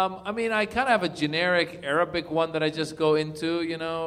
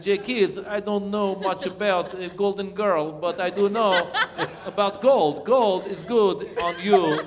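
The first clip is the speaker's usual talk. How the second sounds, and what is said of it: Slow, bad mock Russian accent. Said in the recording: “I do bad accents sometimes ... Russian is always fun. You talk like, it's just you slow it down ... I like to talk with bad accent ... Now I'm starting to sound like Christopher Walken”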